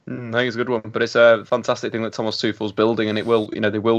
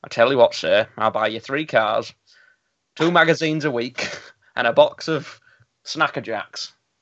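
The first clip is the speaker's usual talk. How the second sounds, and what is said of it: Imitates another person's voice. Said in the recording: “worst Jimmy Savile impression”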